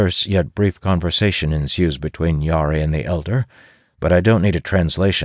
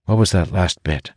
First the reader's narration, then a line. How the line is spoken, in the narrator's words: I ask, lowering my voice as an uncomfortable silence ensues